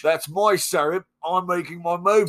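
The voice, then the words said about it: Put-on Australian or New Zealand accent. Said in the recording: “now you sound Australian ... New Zealand accent ... higher pitch when you talk about kiwis”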